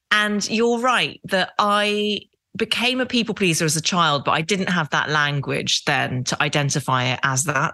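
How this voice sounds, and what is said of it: Very English accent. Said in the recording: “as you can hear, I speak with a very English accent”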